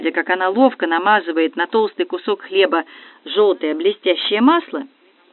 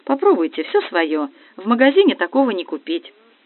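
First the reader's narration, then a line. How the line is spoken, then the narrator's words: Joyful. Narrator (Russian): она радостно сказала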